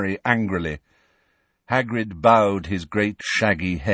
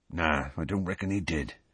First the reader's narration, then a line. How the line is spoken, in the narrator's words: he said quietly